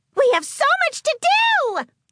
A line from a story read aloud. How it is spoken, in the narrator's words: she squealed